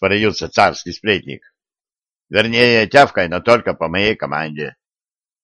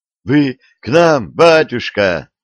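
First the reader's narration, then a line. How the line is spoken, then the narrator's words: Joyful question. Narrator (Russian): радостно спросил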